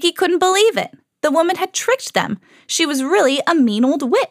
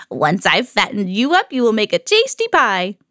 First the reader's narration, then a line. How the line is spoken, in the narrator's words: She cackled